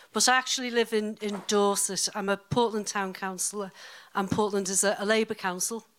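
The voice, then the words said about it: Liverpool accent. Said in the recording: “I'm originally from Liverpool, as you can probably hear from my accent”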